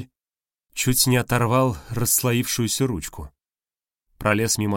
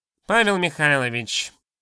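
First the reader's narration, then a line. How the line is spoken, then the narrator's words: Nasal drawl. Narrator (Russian): прогнусавил Мельников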